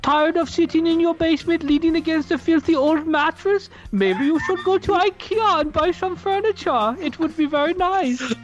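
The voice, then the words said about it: Put-on Swedish accent. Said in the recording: “It's a guy with a Swedish accent.”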